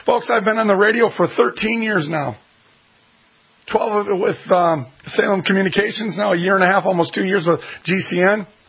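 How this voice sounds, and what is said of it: Hoarse, worn-out voice. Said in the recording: “As you can hear, my voice is completely hashed out.”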